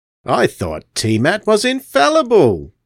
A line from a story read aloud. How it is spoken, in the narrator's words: sneered Eldred